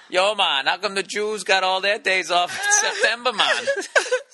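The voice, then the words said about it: Bad put-on Jamaican accent. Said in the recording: “worst fucking Jamaican accent ever”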